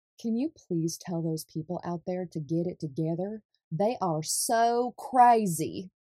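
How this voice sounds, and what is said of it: Attempted Southern accent. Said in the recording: “That was my attempt at a Southern accent there.”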